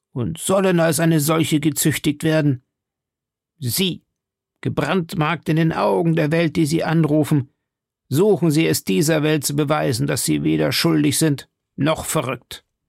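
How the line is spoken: Thundering voice. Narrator (German): rief er mit Donnerstimme

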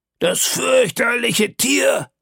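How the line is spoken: Male exclamation. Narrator (German): rief er aus

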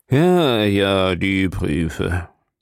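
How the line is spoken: Man repeating, sighing. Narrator (German): wiederholte er seufzend

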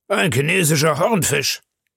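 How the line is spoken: Calling out. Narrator (German): rief Ned Land

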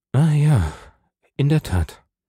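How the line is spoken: Shaken voice. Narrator (German): sagte Monte Cristo mit erschütterter Stimme

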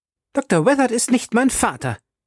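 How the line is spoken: Angry shout. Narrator (German): rief zornig

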